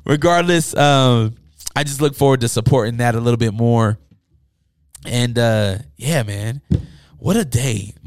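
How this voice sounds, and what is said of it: Hoarse, worn-out voice. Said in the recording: “My voice is gone. I'm parched.”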